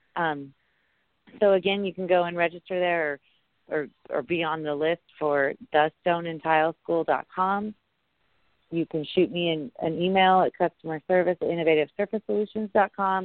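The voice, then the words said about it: Hoarse, worn-out voice. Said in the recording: “I don't normally sound this hoarse, but I talk all day long, and I've kind of been like this for the last 6 months. So maybe someday my voice will come back”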